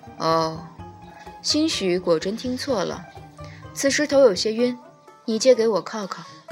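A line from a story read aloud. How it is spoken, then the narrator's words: Calm, gentle, faint. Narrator (Chinese): 东华撑着头，声音依然和缓道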